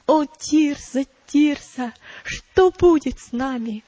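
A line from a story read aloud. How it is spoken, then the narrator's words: Terrified exclamation. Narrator (Russian): бледный как смерть, воскликнул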